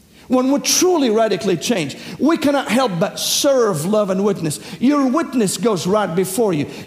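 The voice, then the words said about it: Southern accent. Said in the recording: “my accent, the southern Syrian accent”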